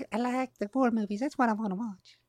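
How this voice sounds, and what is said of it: Playful ant character voice. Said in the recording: “doing an ant voice.”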